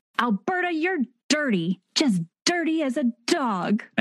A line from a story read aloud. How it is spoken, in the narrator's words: Clara shouts